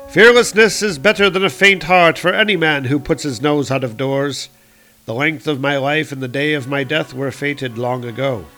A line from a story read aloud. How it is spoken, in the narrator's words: he called out over his shoulder